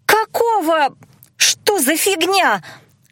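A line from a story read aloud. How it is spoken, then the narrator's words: Girls squealing together. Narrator (Russian): одновременно взвизгнули девчонки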